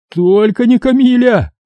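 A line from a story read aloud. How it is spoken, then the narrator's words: Squealing like dying pig. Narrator (Russian): завизжал он смертельно раненой свиньей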